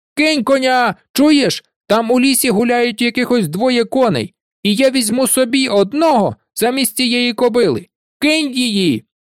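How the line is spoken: Shout. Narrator (Ukrainian): він тільки нахилився до нього і крикнув

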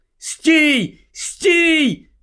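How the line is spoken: Shout. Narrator (Ukrainian): закричав Гаррі

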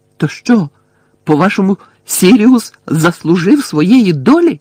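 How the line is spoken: Shouted. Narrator (Ukrainian): крикнув Гаррі

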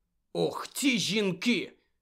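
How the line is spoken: Angry mutter. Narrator (Ukrainian): сердито пробурмотів він

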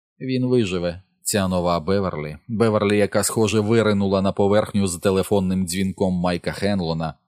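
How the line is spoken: Cold reply. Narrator (Ukrainian): холодно відповіла

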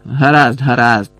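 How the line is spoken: Loud interruption. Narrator (Ukrainian): голосно урвав його дядько Вернон

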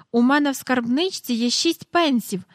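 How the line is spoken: Joyful. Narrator (Ukrainian): радісно сказала Джейн

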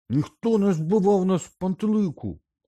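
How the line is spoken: Shouted. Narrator (Ukrainian): закричав Рон

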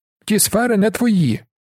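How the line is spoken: Another voice shouting. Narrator (Ukrainian): крикнув ще чийсь голос

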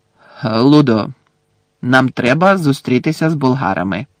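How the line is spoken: Sharp interruption. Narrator (Ukrainian): різко урвав Бекмена містер Кравч

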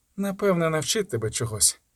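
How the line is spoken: Mutter. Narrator (Ukrainian): пробурмотіла

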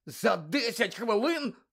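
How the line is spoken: Hoarse rasp. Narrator (Ukrainian): прохрипів Гаррі

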